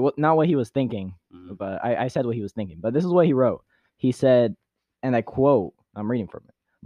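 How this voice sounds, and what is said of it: Usual voice. Nothing is said of it.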